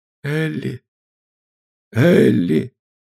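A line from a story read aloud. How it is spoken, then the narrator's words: Urgent whisper. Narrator (Russian): донесся до меня шепот Андре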